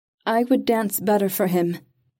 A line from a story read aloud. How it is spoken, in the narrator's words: she said, making her voice clear and strong